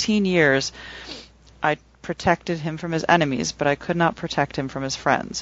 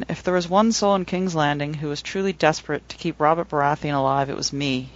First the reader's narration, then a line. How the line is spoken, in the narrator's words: he sighed